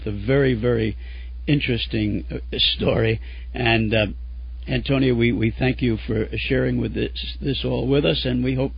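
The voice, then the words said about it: Hoarse voice from a cold. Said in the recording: “I'm kind of losing my voice here. I'm fighting a cold.”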